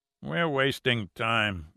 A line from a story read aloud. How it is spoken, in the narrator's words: grunted the second biker